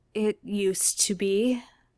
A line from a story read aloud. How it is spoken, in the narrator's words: Dean says, almost under his breath